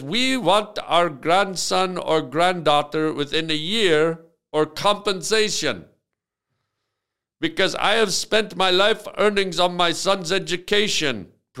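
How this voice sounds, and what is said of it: Improvised put-on accent. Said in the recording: “I'm just improvising the accent, trying my best.”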